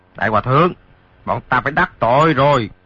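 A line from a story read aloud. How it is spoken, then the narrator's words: Two men shouting. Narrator (Vietnamese): Hai tên lạc ma kia quát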